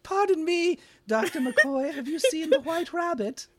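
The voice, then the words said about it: Hollywood-style British accent. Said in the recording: “in, like, the very Hollywood ... British ... Accent.”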